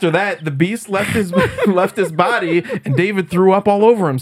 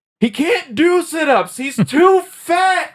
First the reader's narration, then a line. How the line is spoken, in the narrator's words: To add insult to injury, Judy screamed out